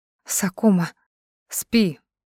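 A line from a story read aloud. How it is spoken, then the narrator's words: Whisper. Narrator (Russian): шепнул он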